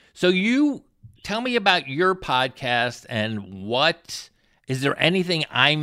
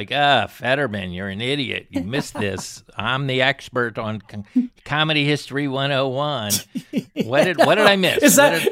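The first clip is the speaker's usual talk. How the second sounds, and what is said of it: Mocking impression of the other host. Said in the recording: “was that your impression of me? ... I'm not good on impressions”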